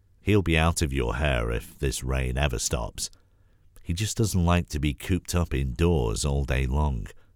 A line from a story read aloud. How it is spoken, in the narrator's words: Grandma sighed